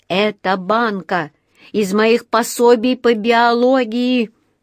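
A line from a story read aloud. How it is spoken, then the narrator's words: Groaning. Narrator (Russian): простонал он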